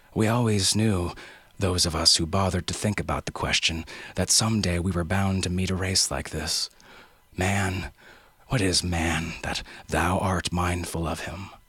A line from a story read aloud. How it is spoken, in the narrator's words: sighed